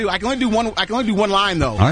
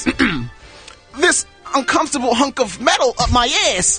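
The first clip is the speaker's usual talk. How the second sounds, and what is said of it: Imitates another person's voice, unconvincingly. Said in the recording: “I do an excellent Christopher Walken impression ... Not quite ... I haven't quite got that Tribeca accent down”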